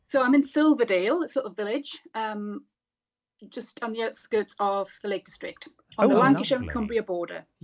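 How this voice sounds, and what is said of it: Slight Newcastle accent. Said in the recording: “I thought I could detect a little accent.”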